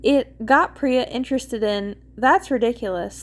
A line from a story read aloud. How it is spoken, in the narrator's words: Leonard sputtered